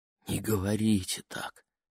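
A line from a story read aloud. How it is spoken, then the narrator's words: Barely audible plea. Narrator (Russian): попросила Лени так тихо, что ее никто не услышал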